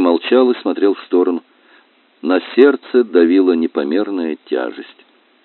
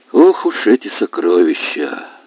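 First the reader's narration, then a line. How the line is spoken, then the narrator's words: Sighing. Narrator (Russian): вздохнул он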